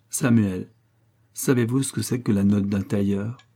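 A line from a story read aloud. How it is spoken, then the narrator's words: Carefree, bored sigh. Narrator (French): avec son air gai et insouciant et me dit, avec un soupir d'ennui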